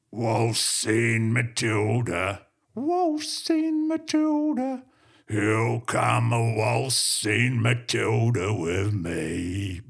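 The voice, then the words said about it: Singing in falsetto. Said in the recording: “I've even mastered falsetto”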